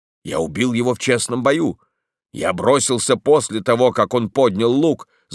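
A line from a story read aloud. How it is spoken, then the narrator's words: Shouted. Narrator (Russian): закричал он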